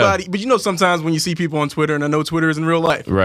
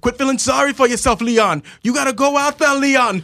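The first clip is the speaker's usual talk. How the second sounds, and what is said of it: Put-on accent, coach's voice. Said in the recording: “Why you hit me with the accent, though?”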